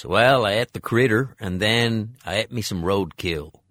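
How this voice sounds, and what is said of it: Put-on South Carolina accent. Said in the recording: “his South Carolina accent, which does come across a bit? It's a bit Simpson-y.”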